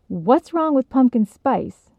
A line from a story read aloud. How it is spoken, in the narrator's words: snapped